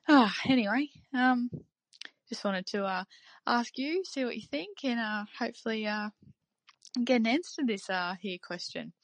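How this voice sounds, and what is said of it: Australian accent. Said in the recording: “it's nice to hear an Aussie accent”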